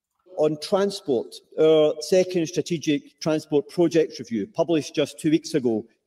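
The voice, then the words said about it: Thick Scottish accent. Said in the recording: “he's got a bit of a thick Scottish accent”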